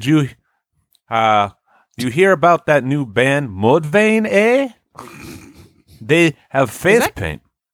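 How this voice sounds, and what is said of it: Put-on Canadian accent, slightly Swiss. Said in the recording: “What accent is that? ... It's Canadian. ... it had a little bit of like ... Swiss in there. ... It's Canadian, eh? ... It's the A. ... You had the A, but you also had a very Swiss accent prior.”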